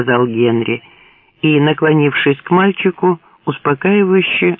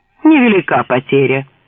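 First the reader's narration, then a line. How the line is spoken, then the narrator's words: Scoffing snort. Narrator (Russian): хмыкнул Билл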